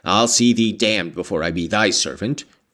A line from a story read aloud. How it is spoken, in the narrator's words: growled the lad